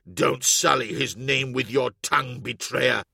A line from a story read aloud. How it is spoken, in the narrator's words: he spat